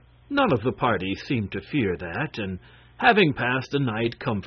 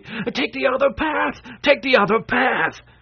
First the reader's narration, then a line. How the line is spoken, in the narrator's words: this man shouting excitedly